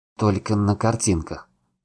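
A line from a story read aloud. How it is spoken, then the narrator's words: Mumbling. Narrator (Russian): продолжал мямлить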